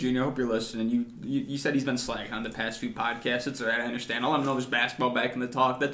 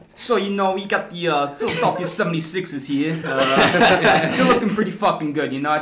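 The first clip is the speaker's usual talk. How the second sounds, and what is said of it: Put-on Philadelphia accent. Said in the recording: “give it to us in your best Philly accent.”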